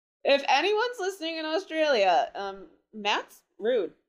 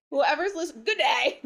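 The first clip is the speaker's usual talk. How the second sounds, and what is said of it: Bad put-on Australian accent. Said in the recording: “accent? ... that was so bad”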